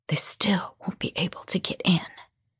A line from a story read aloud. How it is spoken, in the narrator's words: Mama whispered